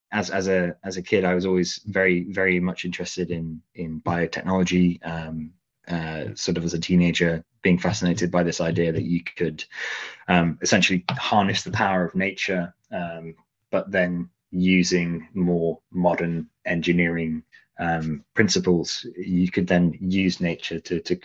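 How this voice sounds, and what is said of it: British English accent. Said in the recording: “Originally, I'm from the UK. You can probably hear that with my accent. I grew up in Leicestershire”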